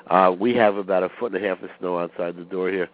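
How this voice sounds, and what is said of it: Raspy voice. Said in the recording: “forgive my raspy voice”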